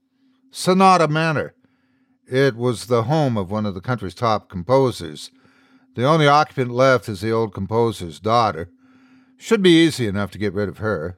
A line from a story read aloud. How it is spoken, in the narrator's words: Dan chuckled to himself